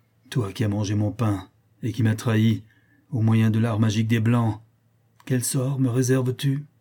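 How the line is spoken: Bitter tone. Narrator (French): dit-il d'un ton amer

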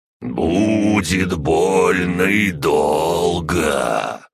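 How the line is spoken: Creaky voice from darkness. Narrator (Russian): проскрипело что-то из темного угла

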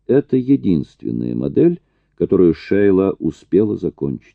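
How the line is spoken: Plain. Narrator (Russian): сказал Эллери

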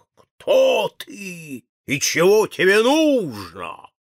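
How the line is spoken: Loud roar. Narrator (Russian): лев рявкнул громко

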